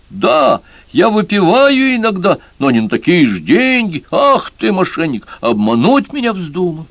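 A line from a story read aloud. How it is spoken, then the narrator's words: Furious shouting. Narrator (Russian): Мокити, сам не свой от бешенства, закричал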